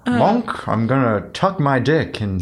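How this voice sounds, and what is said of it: Impression of Monk. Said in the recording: “That's actually a pretty good impression. ... That was really good.”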